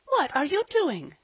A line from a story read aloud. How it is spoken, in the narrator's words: gasped Polly